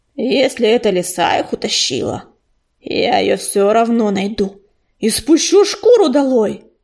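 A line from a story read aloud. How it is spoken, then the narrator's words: Growled. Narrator (Russian): прорычал он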